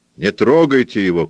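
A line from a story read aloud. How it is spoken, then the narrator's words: Shout. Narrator (Russian): крикнул кто-то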